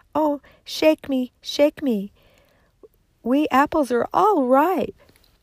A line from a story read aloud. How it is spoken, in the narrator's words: a tree covered with apples, and it called out to her